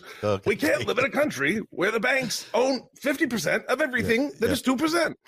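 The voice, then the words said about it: Bernie Sanders impression. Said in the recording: “the impersonation ... that's Bernie Sanders”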